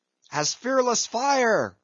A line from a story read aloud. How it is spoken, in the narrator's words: cried Stubb